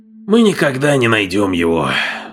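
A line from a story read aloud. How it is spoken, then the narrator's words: Sighed. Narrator (Russian): вздохнул Крейг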